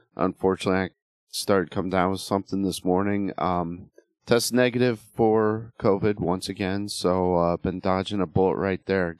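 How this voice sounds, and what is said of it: Slightly sick-sounding voice. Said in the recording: “I sound a little sick,”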